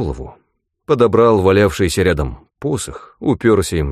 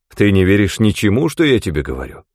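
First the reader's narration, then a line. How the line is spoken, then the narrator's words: Plain. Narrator (Russian): спросил я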